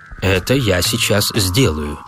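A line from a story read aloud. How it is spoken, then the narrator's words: Plain. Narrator (Russian): ответил Клейтон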